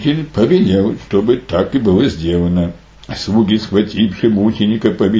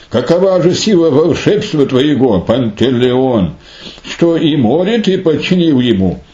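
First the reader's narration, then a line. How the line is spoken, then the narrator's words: Amazed king's exclamation. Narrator (Russian): Царь несказанно изумился такому чуду, воскликнув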